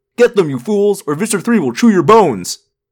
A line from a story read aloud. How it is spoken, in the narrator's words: with a roar, the human controllers